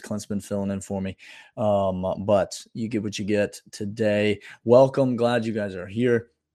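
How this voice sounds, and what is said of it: Weak, not yet recovered voice. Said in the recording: “My voice is still not back. It's been worse the last couple of days.”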